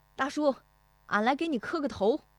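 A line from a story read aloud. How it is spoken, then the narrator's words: Calling out. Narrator (Chinese): 石德义进门就喊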